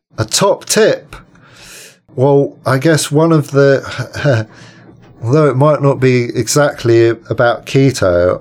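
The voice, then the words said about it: British accent. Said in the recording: “Talking to a fellow Brit. Recognize that accent.”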